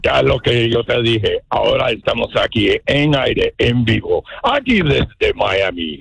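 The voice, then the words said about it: Batman character voice. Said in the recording (Spanish): “Él hace voces. ... ¡Haz voz de Batman! ... ¡Igualito!”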